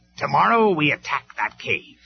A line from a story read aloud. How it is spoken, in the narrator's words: snapped